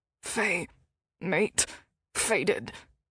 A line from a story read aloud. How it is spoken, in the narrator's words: his wolf growled